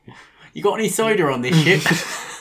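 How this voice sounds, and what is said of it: Put-on West Country accent. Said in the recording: “Very strong West Country accent. ... Can you imagine if Darth Vader was West Country?”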